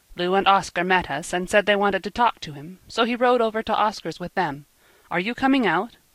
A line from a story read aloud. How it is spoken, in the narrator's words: Emil asked impatiently